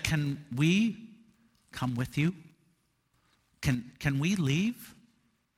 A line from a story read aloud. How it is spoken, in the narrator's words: some people from the community quietly came up to him and said